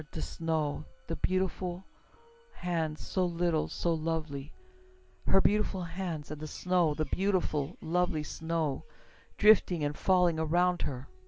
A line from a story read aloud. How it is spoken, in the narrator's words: murmured